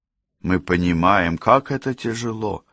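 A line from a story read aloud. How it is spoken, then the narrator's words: Gentle. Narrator (Russian): мягко заметила Кэсси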